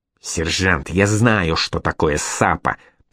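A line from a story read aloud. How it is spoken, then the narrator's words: Hissed. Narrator (Russian): прошипел Алексей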